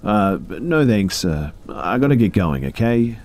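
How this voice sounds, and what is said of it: Shaky, nervous voice. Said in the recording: “in a shaky voice”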